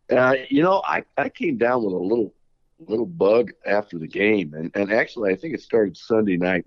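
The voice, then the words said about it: Slightly deeper than usual voice. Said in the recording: “my voice is somewhat normal, although a little deeper than normal”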